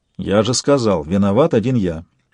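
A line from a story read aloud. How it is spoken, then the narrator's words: Dry curt remark. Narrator (Russian): сухо бросил Сварог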